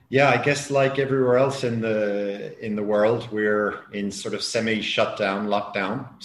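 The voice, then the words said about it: Slight Irish accent. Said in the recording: “the little accent is Irish”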